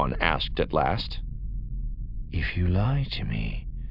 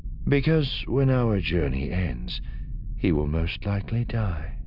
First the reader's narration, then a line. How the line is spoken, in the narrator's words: Thrawn said, his voice calm